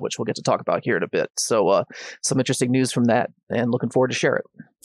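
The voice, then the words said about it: Rough, hoarse voice. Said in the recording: “My voice is a little rough. I picked up a cold or something”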